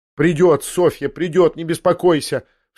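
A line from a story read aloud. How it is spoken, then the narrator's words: Trembling shout of savage fury. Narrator (Russian): Вся дрожа в ужасном припадке злобы, злобы зверской, прокричала Татьяна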